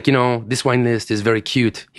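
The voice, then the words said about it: Put-on French accent. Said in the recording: “He was French, if you couldn't tell by my accent.”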